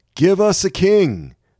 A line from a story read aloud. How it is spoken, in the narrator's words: cried